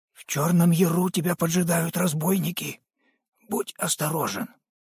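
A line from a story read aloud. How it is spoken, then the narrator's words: Said quietly. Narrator (Russian): тот негромко сказал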